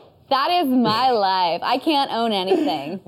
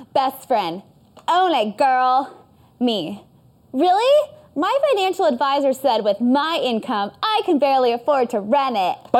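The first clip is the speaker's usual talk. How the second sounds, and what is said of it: Put-on girly voice. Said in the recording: “do my best girl voice”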